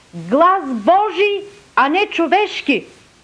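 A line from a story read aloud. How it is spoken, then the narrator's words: Crowd shouting. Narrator (Bulgarian): народът извика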